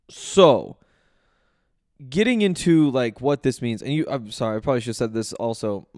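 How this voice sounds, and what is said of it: Hoarse, nearly lost voice. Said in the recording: “My voice is gone, but you probably picked up on that. It's not getting any better throughout this podcast”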